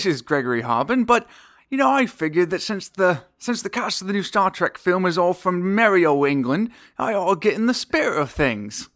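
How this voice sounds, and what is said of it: Put-on British Cockney accent. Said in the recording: “I'll be talking like this for the rest of the show ... I learned my British accent from watching Mary Poppins. So, which I hear is an authentic Cockney brogue.”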